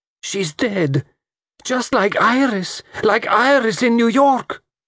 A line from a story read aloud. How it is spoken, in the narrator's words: Lola cried